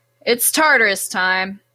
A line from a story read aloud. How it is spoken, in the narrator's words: Apollo snarled